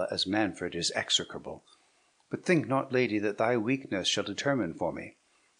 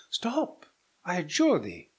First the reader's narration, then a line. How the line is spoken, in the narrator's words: cried Hippolyta